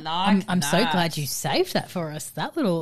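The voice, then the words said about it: Sultry, seductive voice. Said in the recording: “put on your sexy voice”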